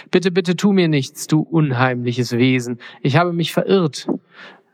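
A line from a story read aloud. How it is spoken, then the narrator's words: Frightened stammer. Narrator (German): stotterte Mondküken verängstigt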